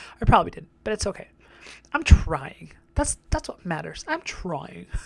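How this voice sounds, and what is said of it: Usual voice. Nothing is said of it.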